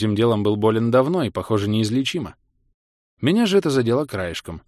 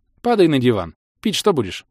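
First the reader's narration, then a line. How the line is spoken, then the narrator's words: Plain. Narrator (Russian): спросила Ласка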